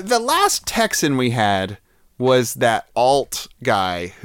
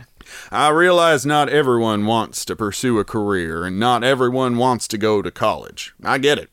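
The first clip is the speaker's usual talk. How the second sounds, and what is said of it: Put-on Texas accent. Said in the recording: “I'm going to do this in a Texas accent also, and we'll see how close it is.”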